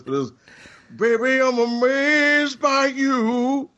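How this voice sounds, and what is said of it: Sung line in Southern drawl. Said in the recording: “I do my best Southern drawl to give it justice”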